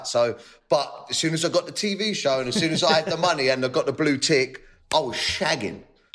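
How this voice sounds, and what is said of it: Working-class British accent. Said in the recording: “I talk like a chav”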